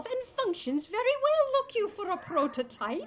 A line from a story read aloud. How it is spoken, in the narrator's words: Tacy snapped before she could stop herself